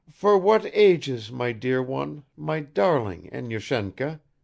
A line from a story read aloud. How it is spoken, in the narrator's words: faltered the old woman